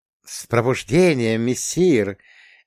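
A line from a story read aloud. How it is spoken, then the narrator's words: Purring, cat. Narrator (Russian): промурлыкал кот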